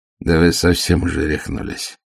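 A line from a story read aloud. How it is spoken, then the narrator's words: Grumbled mutter. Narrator (Russian): буркнул он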